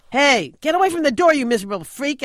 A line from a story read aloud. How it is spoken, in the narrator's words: shout